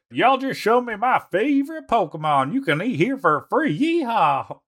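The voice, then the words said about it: Texan Southern accent. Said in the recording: “Texan accent? ... really like Southern accent”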